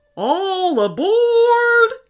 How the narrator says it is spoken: shouted the train guard

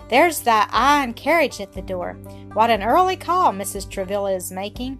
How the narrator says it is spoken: Adelaide exclaimed

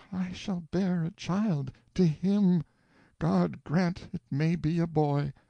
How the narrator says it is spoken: She moaned to herself

